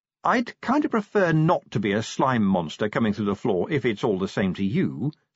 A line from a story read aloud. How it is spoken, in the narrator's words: said Angua haughtily